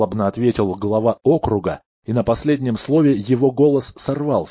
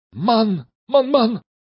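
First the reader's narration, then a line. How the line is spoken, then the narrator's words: Terrified shout. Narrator (Russian): закричал мэр, и его лицо от страха стало мертвенно-бледным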